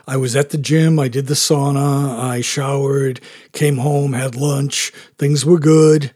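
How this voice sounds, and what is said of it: Hoarse voice. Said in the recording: “I'm kind of hoarse. ... my voice is going to be like stranger”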